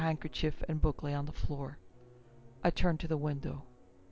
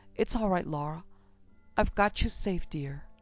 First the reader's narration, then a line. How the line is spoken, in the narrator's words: I cried